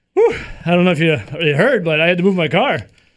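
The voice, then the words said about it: Out of breath, panting. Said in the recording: “out of breath.”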